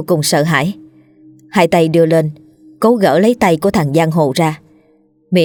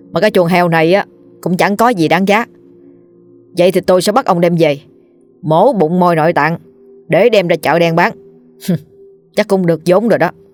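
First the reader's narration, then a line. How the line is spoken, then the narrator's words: Menacing, through gritted teeth. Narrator (Vietnamese): nó nhếch miệng gằn giọng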